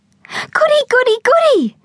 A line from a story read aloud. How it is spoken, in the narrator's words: cried Bindi, as she bounced up and down on the spot